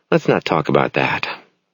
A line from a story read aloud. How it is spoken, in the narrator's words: Sylvia says mournfully